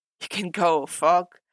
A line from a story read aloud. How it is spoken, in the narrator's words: Matt groaned out, gritting his teeth